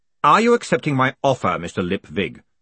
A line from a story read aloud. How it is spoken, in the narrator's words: said Vetinari sharply